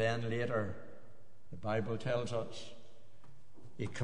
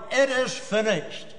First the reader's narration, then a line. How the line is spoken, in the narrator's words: There on the cross he cried